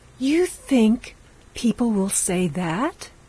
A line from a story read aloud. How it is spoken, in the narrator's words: She exclaimed